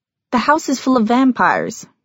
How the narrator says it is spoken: she told him cheerfully

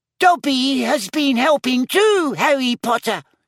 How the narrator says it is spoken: he squeaked

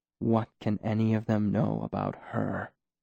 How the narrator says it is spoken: He asked softly

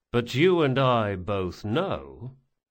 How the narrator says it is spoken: Locke replied slowly

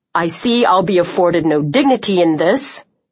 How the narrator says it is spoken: he growled

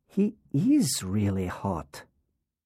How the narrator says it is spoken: Laura whispered

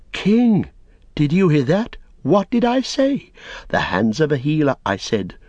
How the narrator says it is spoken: Eorath exclaim

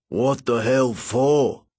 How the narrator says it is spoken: He growled

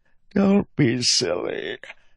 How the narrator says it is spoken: said Reddy with a yawn

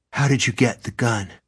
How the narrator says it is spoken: Gansey gasped

